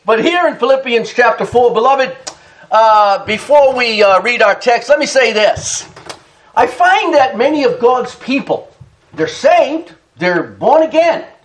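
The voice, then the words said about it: Heavy Boston New England accent. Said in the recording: “your Boston, your New England accent is so heavy”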